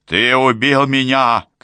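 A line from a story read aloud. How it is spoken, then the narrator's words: Shout. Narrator (Russian): крикнул Питер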